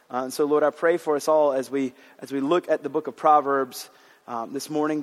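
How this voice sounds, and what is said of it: Hoarse voice. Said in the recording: “I'm a little bit hoarse. ... it's not in full scream mode without it affecting me”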